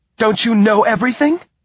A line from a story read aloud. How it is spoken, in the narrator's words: said Beatrice hysterically